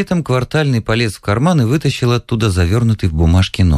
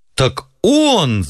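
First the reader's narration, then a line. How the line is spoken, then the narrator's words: Shouted. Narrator (Russian): закричал Ковалев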